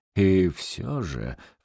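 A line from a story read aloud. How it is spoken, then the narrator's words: Ingratiating insistent priest. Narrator (Russian): вкрадчиво упорствовал святой отец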